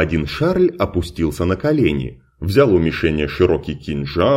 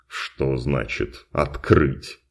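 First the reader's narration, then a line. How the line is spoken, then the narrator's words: Mumbling. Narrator (Russian): Пробормотал он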